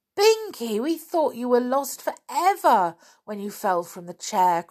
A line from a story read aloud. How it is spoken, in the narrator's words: cried Molly